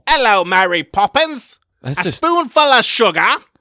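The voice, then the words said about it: Bad, obnoxious put-on Cockney accent. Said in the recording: “a Cockney accent. It is rough... I could do an equally good accent what he did in Mary Poppins... That is obnoxious”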